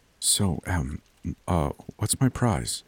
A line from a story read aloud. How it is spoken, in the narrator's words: I whispered to her